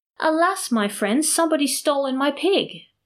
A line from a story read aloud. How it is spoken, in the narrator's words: he called out to them, almost in tears, saying